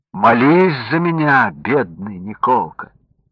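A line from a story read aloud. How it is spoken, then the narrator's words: Sad pleading. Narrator (Russian): пошатнувшийся царь, схватившись за сердце, ... печально просит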